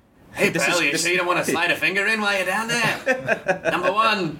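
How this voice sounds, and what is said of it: Regis Philbin impression. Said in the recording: “doing an impression of Regis Philbin”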